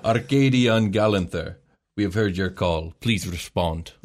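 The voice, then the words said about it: Put-on Russian accent. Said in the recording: “my lack of accent capabilities ... There's a little bit of Russian inside of everybody ... Not bad. Not bad ... That's really good.”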